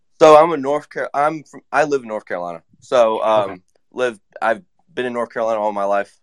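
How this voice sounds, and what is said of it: Slight Southern American accent. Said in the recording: “I have a little bit of a Southern accent. ... A little bit, yeah.”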